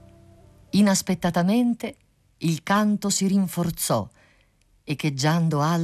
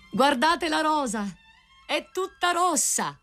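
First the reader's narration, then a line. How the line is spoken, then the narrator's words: Rose tree crying out. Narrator (Italian): il grido del rosaio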